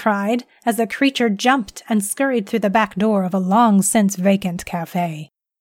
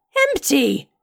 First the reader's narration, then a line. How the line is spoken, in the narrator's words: he cried